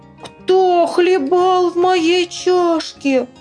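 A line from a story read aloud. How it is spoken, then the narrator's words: Thin squeaky voice. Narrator (Russian): Мишутка увидел свою пустую чашечку и запищал тонким голосом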